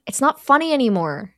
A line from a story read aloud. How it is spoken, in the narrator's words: yells